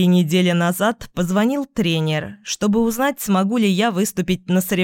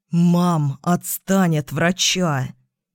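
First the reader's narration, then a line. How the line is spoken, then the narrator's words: Hissing. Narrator (Russian): зашипел я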